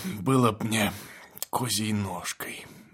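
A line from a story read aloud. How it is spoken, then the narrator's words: Muttered. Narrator (Russian): бормочет фельдшер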